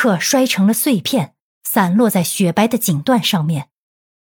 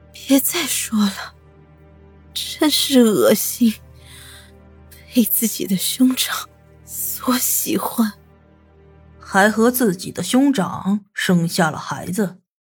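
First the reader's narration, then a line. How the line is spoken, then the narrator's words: Hoarse. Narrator (Chinese): 女人 嘶哑的说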